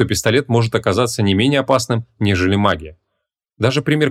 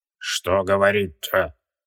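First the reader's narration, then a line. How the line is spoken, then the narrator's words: Creaky voice, in Sumerian. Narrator (Russian): На чистом шумерском проскрипел Скоромах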